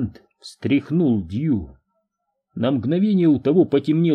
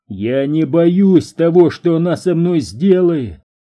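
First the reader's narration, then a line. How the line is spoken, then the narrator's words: Shouting. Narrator (Russian): кричал Перри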